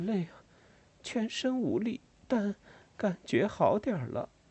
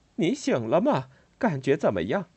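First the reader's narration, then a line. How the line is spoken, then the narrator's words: Tired, smiling. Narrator (Chinese): 巴沃太太面带倦容的笑着对我说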